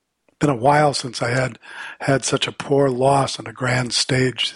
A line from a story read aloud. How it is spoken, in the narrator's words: she says